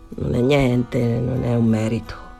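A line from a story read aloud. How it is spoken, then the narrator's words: Embarrassed murmur. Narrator (Italian): Danny rimase imbarazzato, mormorò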